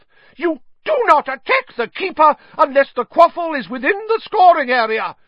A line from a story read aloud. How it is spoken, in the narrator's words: she shrieked at Bowl and Derek